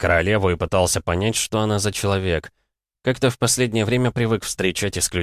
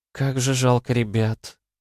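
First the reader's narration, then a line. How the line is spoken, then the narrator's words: Sad young woman. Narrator (Russian): грустно произнесла девушка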